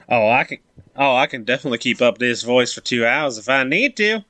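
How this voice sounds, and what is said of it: Put-on Cajun bayou accent. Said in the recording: “Some kind of bastardization of like a bayou accent ... it's definitely a little more bayou, for sure ... Cajun”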